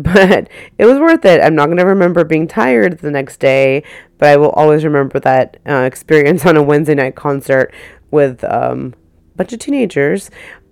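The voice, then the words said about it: Hoarse, partly lost voice. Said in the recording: “you probably can hear my voice is a little bit gone”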